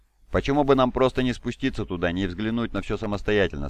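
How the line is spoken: Plain. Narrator (Russian): спросил Беллот

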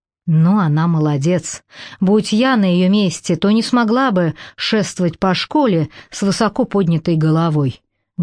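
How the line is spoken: Plain. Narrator (Russian): говорит Дана

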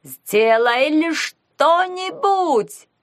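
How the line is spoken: Shrill squeal. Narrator (Russian): визжал он

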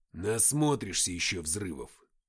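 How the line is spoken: Muttering. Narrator (Russian): пробормотал Матвей

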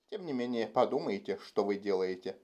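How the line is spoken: Muttered. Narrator (Russian): пробормотал второй вахтенный офицер

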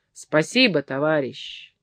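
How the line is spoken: Shout. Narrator (Russian): крикнул Фабрицио

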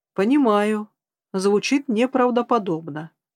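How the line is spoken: Calm. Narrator (Russian): спокойно продолжил мужчина

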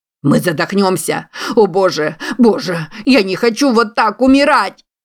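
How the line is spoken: Nearly shrieking. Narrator (Russian): Его голос поднялся почти до визга

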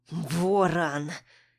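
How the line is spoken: Through gritted teeth. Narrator (Russian): Цедят сквозь зубы

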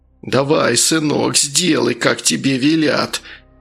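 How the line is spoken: Creaky voice nearby. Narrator (Russian): проскрипел где-то рядом голос главы администрации

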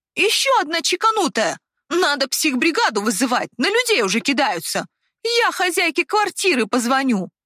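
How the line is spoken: Shouted. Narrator (Russian): Крикнула

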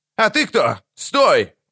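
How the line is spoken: Shouted. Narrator (Russian): крикнул длинноволосый

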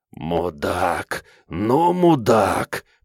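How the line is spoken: Hoarse wheeze. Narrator (Russian): прохрипел враг

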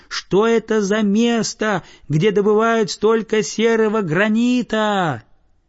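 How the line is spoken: Puzzled boy shouting loudly. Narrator (Russian): Мальчик в недоумении закричал во все горло вниз

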